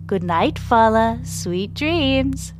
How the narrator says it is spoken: says Paloma in a teasing voice

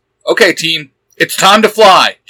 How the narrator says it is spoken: Jim shouts

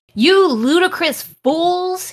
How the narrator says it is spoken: he shouted

